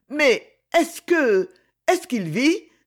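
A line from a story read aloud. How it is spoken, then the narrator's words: Exclaimed. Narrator (French): s'écria-t-elle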